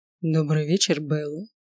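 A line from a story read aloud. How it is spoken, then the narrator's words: Drawling deep voice. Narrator (Russian): поприветствовал меня своим тягучим, глубоким голосом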